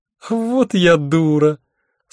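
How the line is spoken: Relieved laughter. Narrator (Russian): с облегчением расхохоталась Альвианта

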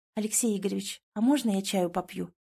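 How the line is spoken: Quiet question. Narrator (Russian): спрашивает тихо

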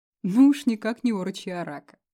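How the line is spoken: Laughing. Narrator (Russian): рассмеялся Дэн

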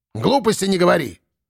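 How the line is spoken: Sharp scolding shout. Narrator (Russian): прикрикнула на него баба Марфа

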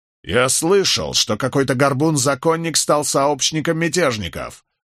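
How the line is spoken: Barking. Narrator (Russian): рявкнул Рейнольдс

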